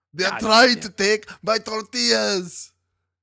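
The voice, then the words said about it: Arnold Schwarzenegger impression. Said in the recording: “doing an Arnold Schwarzenegger impression”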